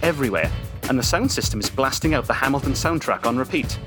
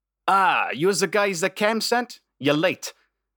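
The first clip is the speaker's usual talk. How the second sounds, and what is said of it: Character with odd mixed accent. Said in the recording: “don't make fun of the accent. I'm an army brat. I was raised on a lot of air bases”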